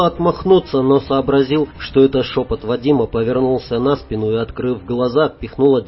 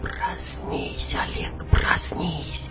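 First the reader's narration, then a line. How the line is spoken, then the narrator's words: Insistent whisper. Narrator (Russian): Шепот ввинчивался в уши надоедливо и упрямо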